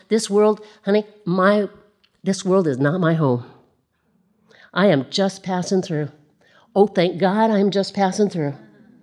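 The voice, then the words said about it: Slips into a southern accent. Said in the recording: “that southern accent just pops right in there”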